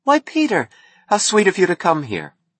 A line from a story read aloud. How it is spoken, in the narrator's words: She smiled without astonishment and said happily